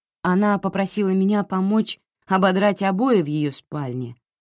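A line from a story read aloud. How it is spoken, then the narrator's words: Plain. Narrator (Russian): сказала Джози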